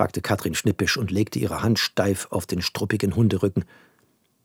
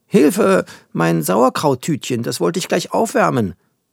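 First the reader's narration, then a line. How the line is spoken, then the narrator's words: Alarmed call. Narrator (German): rief Tante Katrin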